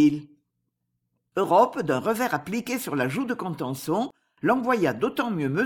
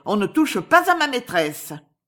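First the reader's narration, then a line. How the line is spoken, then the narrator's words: Shouting. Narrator (French): cria-t-elle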